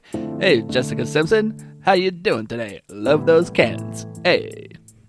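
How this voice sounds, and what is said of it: Cary Grant accent and cadence. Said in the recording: “who plays Cary Grant? ... And have him do the same accent. Have him do the same type of cadence of his voice”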